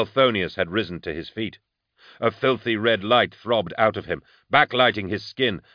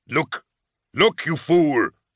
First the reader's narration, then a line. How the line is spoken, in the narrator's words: Kalzean bellowed back in his face